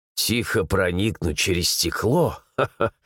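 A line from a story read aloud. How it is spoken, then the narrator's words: Nervous chuckle. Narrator (Russian): нервно хохотнул глава гильдии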